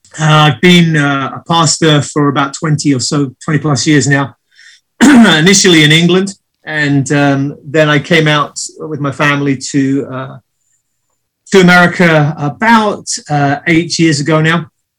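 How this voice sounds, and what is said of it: British accent. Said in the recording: “You don't sound like you have an accent that's native to California. ... Not local, no. Not from these parts. I'm British born and bred”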